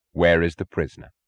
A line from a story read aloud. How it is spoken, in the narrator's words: Francisco asked him